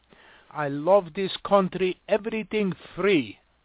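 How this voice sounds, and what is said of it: Mock foreign accent. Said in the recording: “speak American with a foreign accent”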